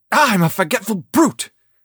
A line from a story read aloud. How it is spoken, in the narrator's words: exclaimed Will